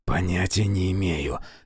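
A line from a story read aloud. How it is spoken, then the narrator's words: Barely audible reply. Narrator (Russian): едва слышно ответил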